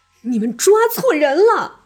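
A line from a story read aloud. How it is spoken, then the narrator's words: Shouting. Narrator (Chinese): 我大喊着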